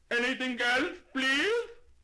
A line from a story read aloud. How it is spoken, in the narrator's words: The delicatessen man just lifted his voice to an ear-splitting shout and said